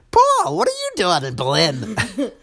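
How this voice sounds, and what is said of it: Imitates another person's voice. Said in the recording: “in that voice that I just poorly imitated ... my impression of Mama doing it ... her impression of her”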